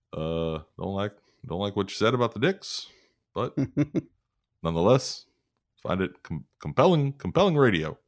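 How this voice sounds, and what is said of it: Impression of Barack Obama. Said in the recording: “I don't know if you're allowed to do an impression of Obama.”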